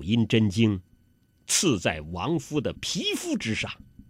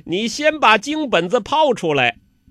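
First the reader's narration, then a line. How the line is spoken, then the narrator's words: Laughing. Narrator (Chinese): 欧阳克笑了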